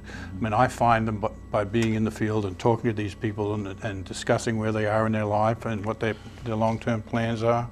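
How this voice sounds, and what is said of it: Australian accent. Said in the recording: “speaks Australian”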